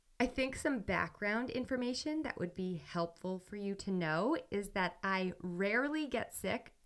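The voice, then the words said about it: Sick, congested-sounding voice. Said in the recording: “a really bad cold, which you can probably hear in my voice.”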